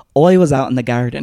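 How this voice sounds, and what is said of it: Bad imitation Irish accent. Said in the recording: “how to do an Irish accent ... that's not an Irish. It was like some fucking like New York like actor”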